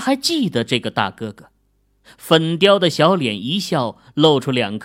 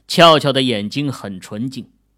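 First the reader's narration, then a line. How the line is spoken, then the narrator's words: Innocent smiling reply. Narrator (Chinese): 秦俏俏纯真的脸上露出了笑容，仰着头回答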